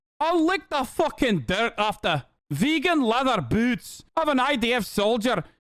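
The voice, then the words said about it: Scottish accent. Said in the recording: “Is that a Scottish accent? Yeah, she is Scottish.”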